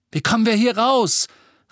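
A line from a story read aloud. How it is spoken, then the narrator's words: Shouting over the uproar. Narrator (German): rief Ron durch das ganze Geschrei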